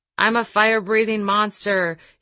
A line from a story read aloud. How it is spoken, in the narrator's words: he roared to my kids